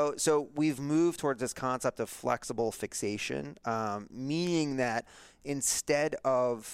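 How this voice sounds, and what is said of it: Usual voice. Nothing is said of it.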